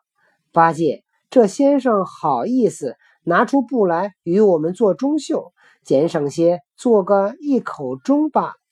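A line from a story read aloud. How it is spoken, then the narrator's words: Laughing. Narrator (Chinese): 行者笑道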